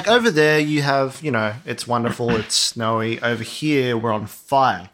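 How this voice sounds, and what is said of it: Slight Australian accent. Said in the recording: “we're Australian. You might have picked that up from our very slight accent.”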